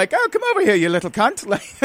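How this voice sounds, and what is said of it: Put-on Irish accent, old leprechaun. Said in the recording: “the Queen is Irish, according to your accent, which I love ... I never said that I was good at accents ... possibly an older leprechaun ... An aged leprechaun that had chain smokes”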